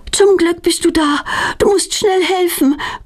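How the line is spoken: Breathless panting. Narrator (German): keucht Petronella

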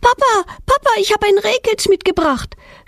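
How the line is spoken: Excited shout. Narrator (German): schreit Petronella mit aufgeregter Stimme

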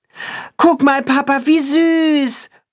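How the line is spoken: Child calling out. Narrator (German): ruft der Junge seinem Vater zu

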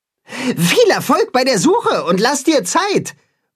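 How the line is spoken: Calling after someone. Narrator (German): ruft Timme ihm nach

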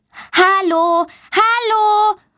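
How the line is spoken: Loud call. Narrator (German): ruft sie laut

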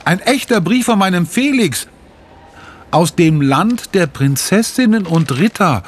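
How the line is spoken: Calling out. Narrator (German): ruft sie

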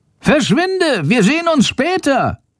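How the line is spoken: Calls out. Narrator (German): ruft Schandor

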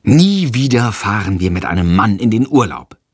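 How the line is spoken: Plain. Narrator (German): sagt Freya

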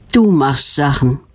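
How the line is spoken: Sigh with smile. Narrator (German): seufzt Knut und lächelt fast gleichzeitig

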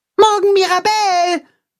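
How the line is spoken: Calling after. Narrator (German): ruft Max ihr nach

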